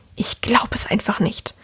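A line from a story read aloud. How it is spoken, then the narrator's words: Hissing woman. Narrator (German): die Frau zischen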